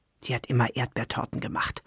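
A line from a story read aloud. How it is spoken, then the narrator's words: Murmuring. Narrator (German): murmelte Esther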